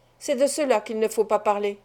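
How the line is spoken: Brisk. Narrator (French): dit-il vivement

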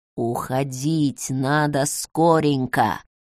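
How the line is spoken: Old man's whisper. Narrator (Russian): прошептал дед

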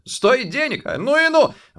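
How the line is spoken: Exclaiming. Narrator (Russian): воскликнул он

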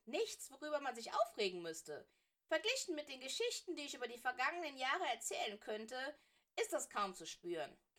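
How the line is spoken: Giggling. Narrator (German): kicherte er

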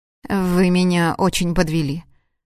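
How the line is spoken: Dry curt statement. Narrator (Russian): сухо заявила

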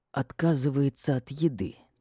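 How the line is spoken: Hostile mutter through teeth, dragon. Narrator (Russian): неприязненно процедил высокий дракон

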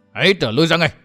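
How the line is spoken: Loud ringing shout. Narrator (Vietnamese): Mai Ánh Tuyết buông tiếng quát vang

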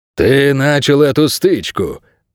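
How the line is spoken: Growled. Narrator (Russian): прорычал Инго

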